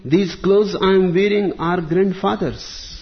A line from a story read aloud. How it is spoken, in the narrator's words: cried the other triumphantly